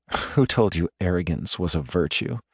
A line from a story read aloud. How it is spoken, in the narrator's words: The words are spoken softly